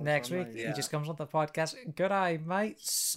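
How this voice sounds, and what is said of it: Put-on Australian accent. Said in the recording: “Australian accent”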